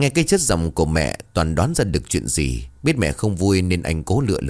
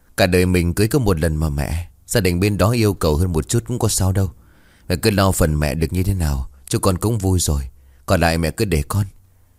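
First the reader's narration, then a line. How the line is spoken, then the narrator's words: Sighing. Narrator (Vietnamese): Toàn thở dài rồi bảo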